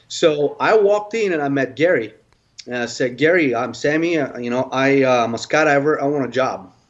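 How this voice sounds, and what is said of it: Foreign accent. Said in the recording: “Because I have an accent”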